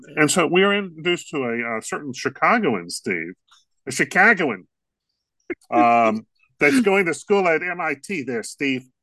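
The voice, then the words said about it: Bad put-on Chicago accent. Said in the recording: “That is the worst Chicago accent ... they used a street accent”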